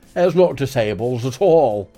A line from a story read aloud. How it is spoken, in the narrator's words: the knobhead of a vicar shouted